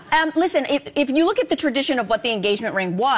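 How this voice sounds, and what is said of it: Usual voice. Nothing is said of it.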